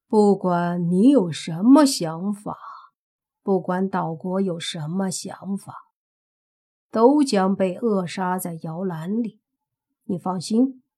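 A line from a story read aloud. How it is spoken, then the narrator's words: Calm, indifferent. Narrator (Chinese): 莫凡淡淡的说道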